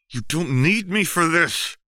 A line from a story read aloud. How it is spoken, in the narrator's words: Seraphine said through her teeth